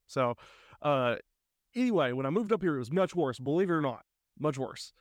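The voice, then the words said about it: Noticeable regional accent. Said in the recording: “I don't typically talk like this ... I'm going to be comfortable and I'm going to, you know, yeah. use my accent.”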